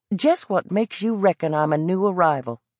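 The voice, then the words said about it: Thick Southern American accent. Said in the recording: “His accent was as thick as the smell of Carolina jasmine blowing across a cotton field”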